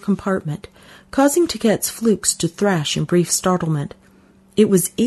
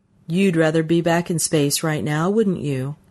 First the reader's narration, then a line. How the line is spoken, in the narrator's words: asked